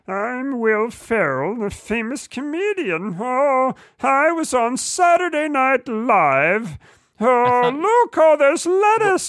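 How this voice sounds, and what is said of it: Imitates another person's voice. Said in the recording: “I'm going to do my impression of Will Ferrell's impression of lettuce. ... Will Ferrell is not a Muppet.”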